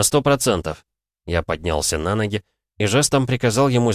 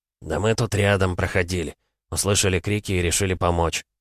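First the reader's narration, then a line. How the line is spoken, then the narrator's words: Calm. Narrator (Russian): спокойно сказал он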